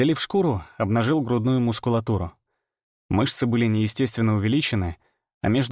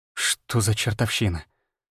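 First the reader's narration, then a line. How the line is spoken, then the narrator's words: Mutter. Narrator (Russian): пробормотал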